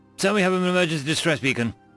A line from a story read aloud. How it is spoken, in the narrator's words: the comms officer hastily explained at such a speed he had to take a deep breath and repeat himself